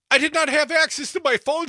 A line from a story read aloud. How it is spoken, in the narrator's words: Santos pleaded